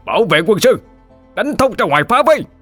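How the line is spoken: Thunderous battle shout. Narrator (Vietnamese): Trần Nghiễn gom lại tàn binh, thét lên vang trời

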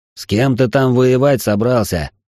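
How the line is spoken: Growled. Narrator (Russian): прорычал

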